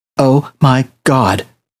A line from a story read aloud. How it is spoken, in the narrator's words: Sarah whispered back